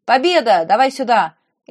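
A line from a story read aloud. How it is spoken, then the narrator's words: Shout. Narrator (Russian): Крикнул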